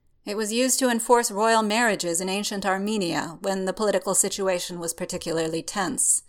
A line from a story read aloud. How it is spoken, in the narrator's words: Strange states blandly, as if it should be obvious